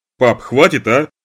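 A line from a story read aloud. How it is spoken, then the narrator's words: Loud request. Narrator (Russian): попросил я громко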